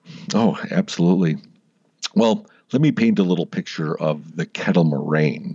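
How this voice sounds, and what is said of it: Slight Midwestern twang. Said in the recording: “Do I have an accent in Wisconsin? ... You had a little twang there. ... Little twang. ... A little one.”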